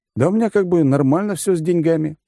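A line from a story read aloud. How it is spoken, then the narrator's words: Suspicious grumble. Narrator (Russian): буркнул я, все еще ища, где подвох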